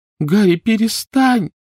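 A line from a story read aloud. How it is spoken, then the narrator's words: Pleading. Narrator (Russian): взмолилась Гермиона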